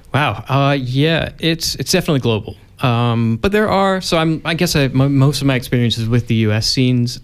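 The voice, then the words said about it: American accent. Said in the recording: “if you haven't caught on from your accent, you are actually from the US.”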